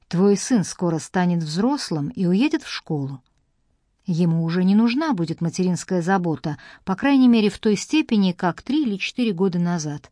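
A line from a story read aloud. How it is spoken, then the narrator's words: Calm continuing. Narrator (Russian): спокойно продолжала тетушка Розалин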